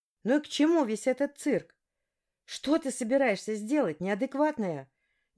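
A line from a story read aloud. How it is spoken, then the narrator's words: Shouting out. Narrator (Russian): выкрикнула я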